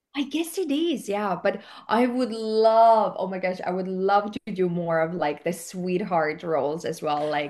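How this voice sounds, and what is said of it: Slight non-native accent. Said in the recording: “I do have an accent, like you can tell, right? ... it's not strong, but it's there.”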